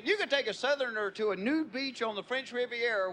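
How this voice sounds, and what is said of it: Southern American accent. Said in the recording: “It is hard to be cool with a southern accent.”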